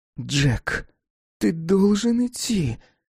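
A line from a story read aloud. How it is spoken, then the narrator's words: Desperate plea. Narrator (Russian): отчаянно взмолилась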